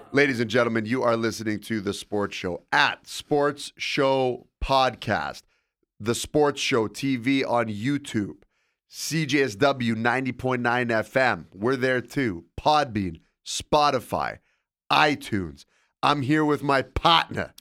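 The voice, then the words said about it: Slightly hoarse voice. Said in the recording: “Your voice sounds a little hoarse. ... It's a little hoarse. ... It was a little bit of a late one.”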